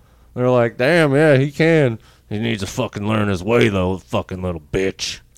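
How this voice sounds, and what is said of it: Imitates another person's voice. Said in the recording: “A pretty good John Voight impression.”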